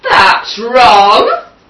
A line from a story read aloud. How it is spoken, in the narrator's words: cried Wolf